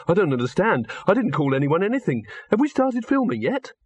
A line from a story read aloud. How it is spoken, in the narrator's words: he said desperately